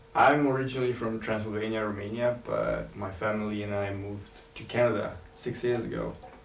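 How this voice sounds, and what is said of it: Romanian accent in English. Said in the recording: “you have an accent? ... my accent”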